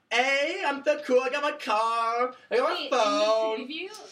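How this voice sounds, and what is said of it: Exaggerated Valley girl accent. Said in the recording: “she was like very Valley, some like great Valley accent”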